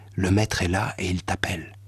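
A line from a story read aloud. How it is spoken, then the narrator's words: Low voice. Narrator (French): lui dit à voix basse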